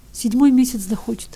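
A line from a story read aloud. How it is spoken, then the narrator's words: Answering through tears. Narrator (Russian): отвечал Ивка все еще сквозь слезы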